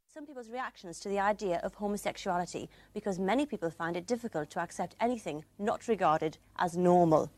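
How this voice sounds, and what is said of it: Lovely accent. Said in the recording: “She's got a lovely accent.”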